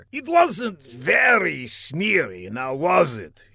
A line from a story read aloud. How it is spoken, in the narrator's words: replied with a sneer